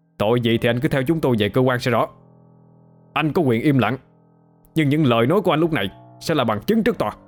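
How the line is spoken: Stern voice. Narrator (Vietnamese): Một anh cất giọng nói nghiêm nghị

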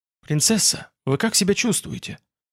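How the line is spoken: Thin gentle voice. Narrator (Russian): Она проговорила тоненьким нежным голоском

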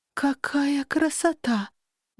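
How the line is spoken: Delighted gasp. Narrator (Russian): выдохнула я восторженная

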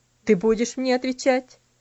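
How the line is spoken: Stern question. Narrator (Russian): спросил он строгим голосом

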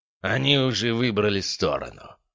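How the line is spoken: Cold reply. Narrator (Russian): холодно ответил он

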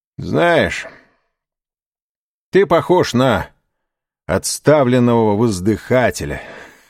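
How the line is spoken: Loud laughter. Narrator (Russian): он громко захохотал

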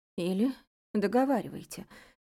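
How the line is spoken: Hoarse voice behind curtain. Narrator (Russian): хрипя произнес голос за шторой

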